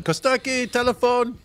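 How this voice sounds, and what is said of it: Put-on Greek accent. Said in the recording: “do a Greek accent ... I sort of do an impression of my dad ... It's a tough accent to do, actually.”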